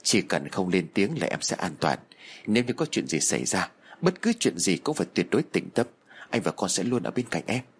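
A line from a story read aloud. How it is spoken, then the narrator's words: Whispering. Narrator (Vietnamese): bác Cương thì thầm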